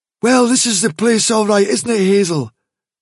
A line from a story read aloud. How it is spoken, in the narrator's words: said Dandelion lazily